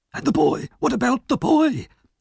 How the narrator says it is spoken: gasped Fagin

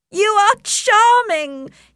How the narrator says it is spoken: he cried

